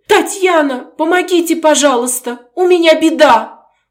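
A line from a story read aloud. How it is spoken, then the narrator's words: Tearful, sobbing. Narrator (Russian): Плаксиво говорила, всхлипывая при этом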